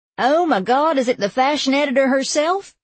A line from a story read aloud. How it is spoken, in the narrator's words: Jill Mock shrieked